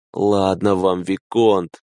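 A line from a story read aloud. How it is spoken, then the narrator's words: Weary. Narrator (Russian): устало ответил он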